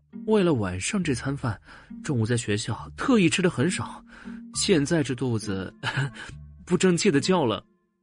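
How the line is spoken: Embarrassed, low voice. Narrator (Chinese): 他不好意思的低声说道

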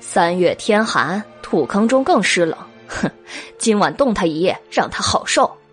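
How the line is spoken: Laughing, spiteful. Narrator (Chinese): 韦燕笑道

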